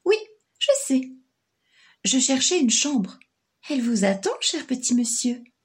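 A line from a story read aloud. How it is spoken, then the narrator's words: Plain. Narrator (French): dit la dame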